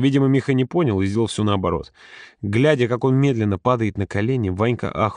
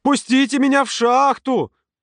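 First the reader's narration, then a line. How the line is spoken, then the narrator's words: Loud yelling. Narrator (Russian): Миха заорал на весь пляж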